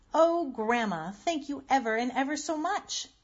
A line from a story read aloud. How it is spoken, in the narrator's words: Marcella cried